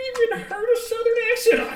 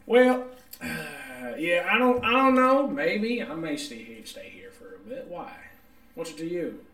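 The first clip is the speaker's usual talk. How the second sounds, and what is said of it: Put-on sultry Southern accent. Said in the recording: “his southern accent ... that sultry southern accent”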